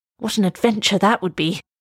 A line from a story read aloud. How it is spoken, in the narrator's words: he cried